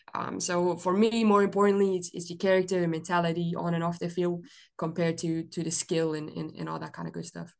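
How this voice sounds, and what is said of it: Belgian-accented English. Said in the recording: “that's not a Mississippi accent that you have there ... I'm originally from Belgium”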